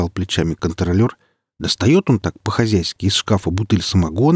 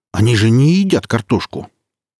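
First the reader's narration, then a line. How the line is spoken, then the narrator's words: Tipsy, indignant. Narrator (Russian): Землекоп еще подпил и говорит такой возмущенно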